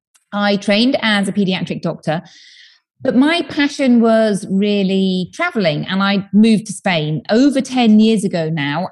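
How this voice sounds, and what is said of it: British accent. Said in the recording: “I'm from the UK, as you may tell from my accent.”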